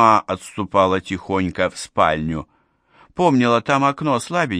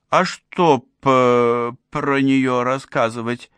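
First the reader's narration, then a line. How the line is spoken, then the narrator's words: Stammering. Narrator (Russian): начала заикаться Соня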